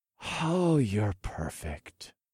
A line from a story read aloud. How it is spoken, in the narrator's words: breathed